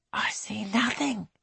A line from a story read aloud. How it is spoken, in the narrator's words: whispers